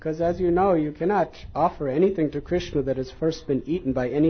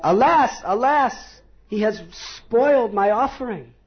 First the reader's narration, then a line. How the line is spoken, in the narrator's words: the Brahmin cried out